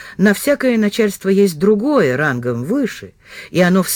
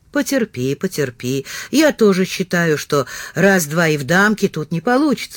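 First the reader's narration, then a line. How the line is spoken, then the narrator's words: Plain. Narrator (Russian): сказал Комаров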